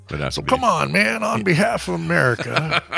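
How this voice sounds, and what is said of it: Imitates another person's voice. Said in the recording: “my shitty Biden impersonation”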